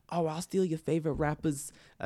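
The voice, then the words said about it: Imitates another person's voice, badly. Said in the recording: “That's a terrible impression.”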